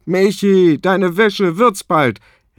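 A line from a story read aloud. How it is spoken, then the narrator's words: Father calling from bathroom. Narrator (German): Als Papa aus dem Badezimmer ruft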